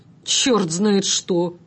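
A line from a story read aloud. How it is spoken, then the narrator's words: Through clenched teeth. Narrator (Russian): процедил сквозь зубы гражданин в пенсне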